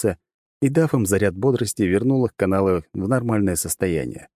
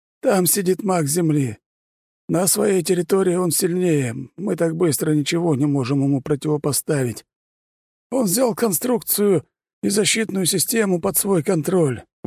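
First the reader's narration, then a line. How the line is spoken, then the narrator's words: Exhausted exhale. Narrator (Russian): выдохнул маг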